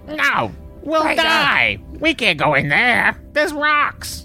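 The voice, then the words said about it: Dumb silly character voice. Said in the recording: “That's what the voice for the ExoComp should have been. ... Such a dumb voice. I can't even maintain it.”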